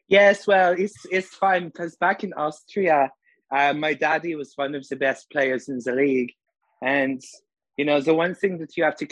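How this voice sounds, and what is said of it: Impression of Marco Rossi. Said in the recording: “I've been working on my impression ... pretend that you're interviewing me and I'll be him.”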